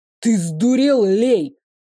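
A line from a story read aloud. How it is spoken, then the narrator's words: Roar. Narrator (Russian): взревел Рейв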